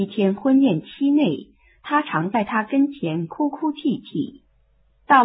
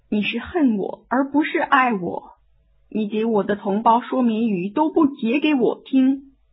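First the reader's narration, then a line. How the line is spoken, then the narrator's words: Tearful whimpering. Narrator (Chinese): 三松的妻子 哭哭啼啼说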